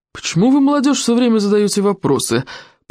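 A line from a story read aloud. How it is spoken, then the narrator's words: Grumbling. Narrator (Russian): проворчал Стоик обширный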